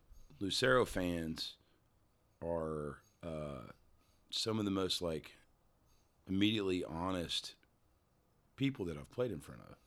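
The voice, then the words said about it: Country-sounding accent. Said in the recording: “people still call me country, and I'll take it. ... I think it's just my accent.”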